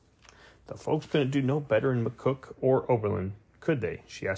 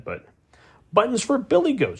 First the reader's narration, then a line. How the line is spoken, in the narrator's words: snapped